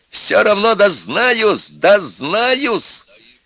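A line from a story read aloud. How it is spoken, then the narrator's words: Yelling at full strength. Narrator (Russian): Костя заорал оттуда, что было силы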